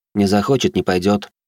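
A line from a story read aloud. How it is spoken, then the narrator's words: Calm. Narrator (Russian): спокойно добавил сын кардинала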